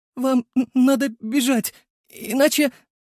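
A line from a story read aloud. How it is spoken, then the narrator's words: Sobbing, forced out. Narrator (Russian): Лика начала успокаиваться и, всхлипывая, выдавила из себя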